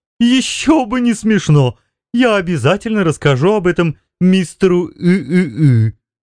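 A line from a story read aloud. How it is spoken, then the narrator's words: Laughing while speaking. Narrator (Russian): продолжая смеяться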